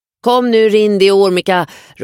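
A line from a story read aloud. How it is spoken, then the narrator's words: Calling out. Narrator (Swedish): ropar Ayla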